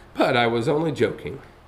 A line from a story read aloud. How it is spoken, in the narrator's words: said the mayor, chuckling